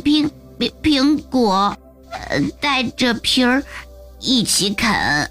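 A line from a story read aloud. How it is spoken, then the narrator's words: Quiet. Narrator (Chinese): 比尔小声说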